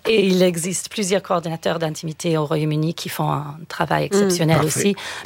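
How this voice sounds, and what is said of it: Slight British accent in French. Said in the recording (French): “mon petit accent. Je suis britannique à la base.”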